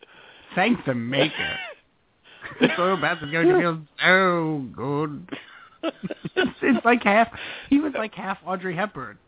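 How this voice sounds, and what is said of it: Fussy robot character voice. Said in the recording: “You lean into that a little heavy, too, when you do this voice ... You sound a little bit like the doctor from Lost in Space”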